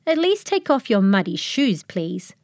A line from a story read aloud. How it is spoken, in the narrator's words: I growled a kindly growl